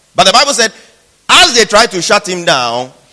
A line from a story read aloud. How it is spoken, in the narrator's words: he shouted them all